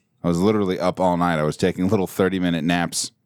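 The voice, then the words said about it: Tired, worn-out voice. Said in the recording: “hear it in my voice ... I'm a little out of sorts this evening. I was up all night.”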